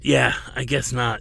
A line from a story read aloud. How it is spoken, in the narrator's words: Laddin rasped